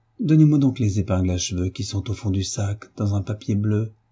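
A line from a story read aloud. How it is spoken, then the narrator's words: Plain. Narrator (French): dit-elle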